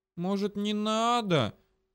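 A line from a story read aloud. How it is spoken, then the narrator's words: Slightly plaintive drawl. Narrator (Russian): чуть жалобно протянула Дрика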